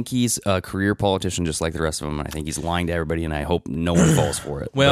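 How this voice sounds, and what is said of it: Usual voice. Nothing is said of it.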